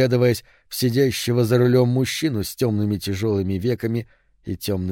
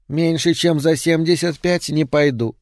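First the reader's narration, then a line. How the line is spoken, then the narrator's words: Indifferent, thin voice. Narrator (Russian): сказала она равнодушно тонким голосом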